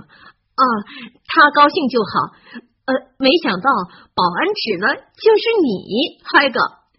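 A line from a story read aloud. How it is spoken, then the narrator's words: Laughing. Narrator (Chinese): 哈利 笑着说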